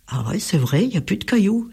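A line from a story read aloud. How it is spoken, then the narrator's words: Exclaiming. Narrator (French): s'exclame Enzo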